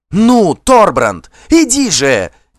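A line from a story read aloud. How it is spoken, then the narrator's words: Shout. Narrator (Russian): крикнула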